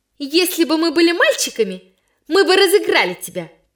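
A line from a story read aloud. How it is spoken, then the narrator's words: Shouting. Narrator (Russian): кричала Ляля Ивина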